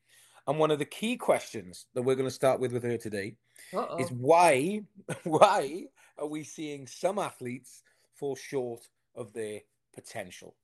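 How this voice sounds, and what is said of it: English accent. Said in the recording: “I want to come back to England, and hearing your accent makes me feel like I'm kind of home”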